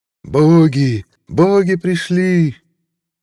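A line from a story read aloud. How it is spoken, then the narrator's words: Shouting in ancient tongue. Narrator (Russian): закричал на давно забытом языке спрятанный межгор народец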